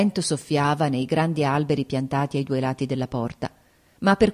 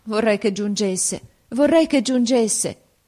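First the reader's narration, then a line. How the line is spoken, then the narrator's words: Sad exclamation. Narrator (Italian): esclamai, presa dalla tristezza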